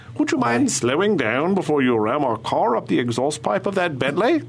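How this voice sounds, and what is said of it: Put-on British accent. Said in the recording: “any argument sounds better with a British accent.”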